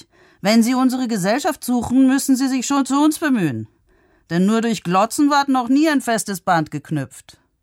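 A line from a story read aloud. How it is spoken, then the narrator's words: Called out. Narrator (German): rief ich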